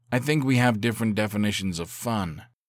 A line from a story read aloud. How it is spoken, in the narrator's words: he said dryly